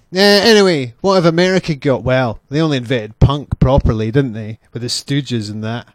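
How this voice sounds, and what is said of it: Scottish accent. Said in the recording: “they're all laughing at my accent... I'm actually very well spoken for a Scottish person”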